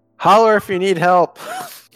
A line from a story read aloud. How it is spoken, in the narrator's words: he just shouts down it